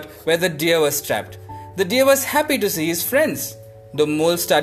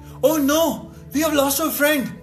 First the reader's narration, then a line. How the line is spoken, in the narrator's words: cried the crow